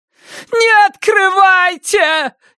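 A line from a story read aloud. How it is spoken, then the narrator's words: Frantic scream. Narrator (Russian): истошно заорала Сара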